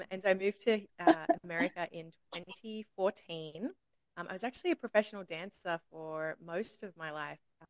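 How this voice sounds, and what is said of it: Australian accent. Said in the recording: “I am Australian. From Sydney”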